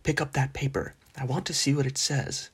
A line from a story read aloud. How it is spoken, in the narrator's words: he added in an undertone